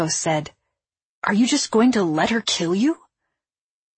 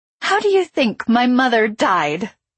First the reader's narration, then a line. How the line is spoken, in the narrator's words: I laughed